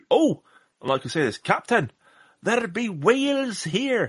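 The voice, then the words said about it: Poor put-on Scottish accent. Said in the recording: “that was a terrible Scottish accent”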